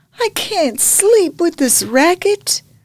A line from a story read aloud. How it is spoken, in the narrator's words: Hildie cried